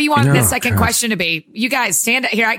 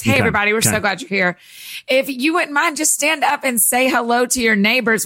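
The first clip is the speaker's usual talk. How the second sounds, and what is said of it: Preacher voice. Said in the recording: “I'll use my preacher voice.”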